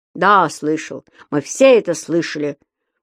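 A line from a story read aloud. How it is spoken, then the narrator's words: Grumble. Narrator (Russian): проворчал Понеделькус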